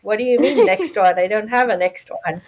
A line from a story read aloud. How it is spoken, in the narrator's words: I laughed because I was like